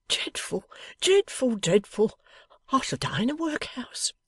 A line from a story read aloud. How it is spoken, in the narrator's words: cried the Golden Dustman